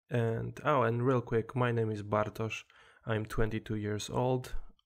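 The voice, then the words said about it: Polish-accented English. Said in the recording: “Originally, I'm from Poland, as you can probably hear in my accent.”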